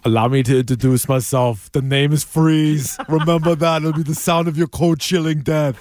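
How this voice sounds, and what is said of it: Impression of Mr. Freeze villain voice. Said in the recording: “not a bad impression ... Good impression for a bad movie”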